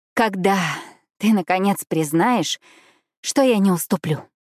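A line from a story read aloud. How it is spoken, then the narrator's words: Sigh. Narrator (Russian): вздохнула я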